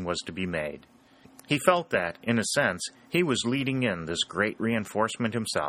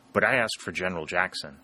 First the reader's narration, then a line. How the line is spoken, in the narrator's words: said the colonel